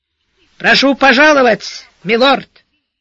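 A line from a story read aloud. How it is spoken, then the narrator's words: Too loud, almost shouting. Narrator (Russian): Верный Макрит на сей раз произнес это что-то чересчур уж громко, почти крикнул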